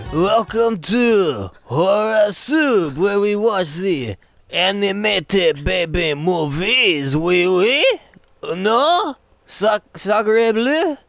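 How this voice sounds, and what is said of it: Put-on French accent. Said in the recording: “It's our best French accent.”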